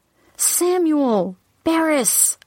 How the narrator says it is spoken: cried out

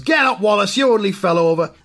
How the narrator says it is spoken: one fan shouts

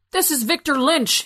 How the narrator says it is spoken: yelled

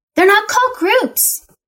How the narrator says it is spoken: Tabitha shouted

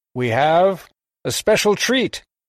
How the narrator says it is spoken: Parson Brown intoned

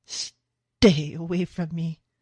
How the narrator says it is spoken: he gasps

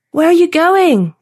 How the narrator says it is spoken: Nate yelled

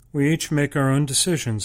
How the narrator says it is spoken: Indrani stated evenly

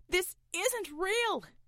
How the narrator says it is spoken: shouted Roy

